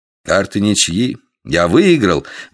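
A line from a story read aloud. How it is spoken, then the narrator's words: Exclaimed. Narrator (Russian): воскликнул Дикон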